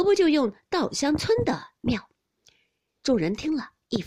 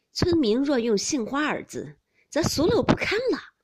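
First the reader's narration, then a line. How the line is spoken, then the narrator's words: Cold sneer. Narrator (Chinese): 宝玉冷笑道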